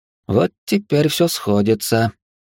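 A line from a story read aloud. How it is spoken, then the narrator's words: Sad sigh. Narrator (Russian): печально вздохнул Эридани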